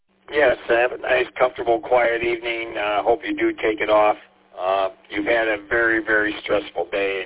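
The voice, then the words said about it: Raw, hoarse voice. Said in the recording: “apologize for my voice. Kind of raw. ... I lost my voice.”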